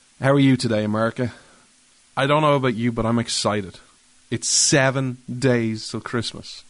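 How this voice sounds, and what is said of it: Irish accent. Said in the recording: “This Irish man stands with America... you come for the accent”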